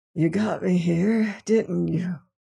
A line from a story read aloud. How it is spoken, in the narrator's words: he whispered